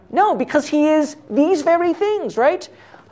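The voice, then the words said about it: Excited yelling. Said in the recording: “I'm yelling, sorry ... I'm not even angry. I'm just excited.”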